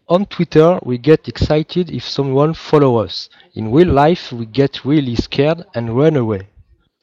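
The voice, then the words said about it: English with a heavy French accent. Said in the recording (French): “j'ai un très mauvais accent anglais”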